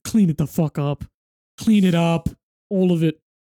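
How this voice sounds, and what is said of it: Imitates another person's voice. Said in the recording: “it's a shit accent ... I'll stop my Gordon Ramsay accent.”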